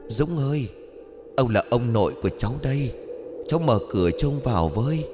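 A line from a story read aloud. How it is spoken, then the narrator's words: Distant eerie whisper. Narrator (Vietnamese): Người bên ngoài cửa lại cất tiếng văng vẳng hệt như thể đang thì thầm bên tai của Dũng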